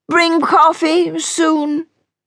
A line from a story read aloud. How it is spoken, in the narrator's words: Diana called out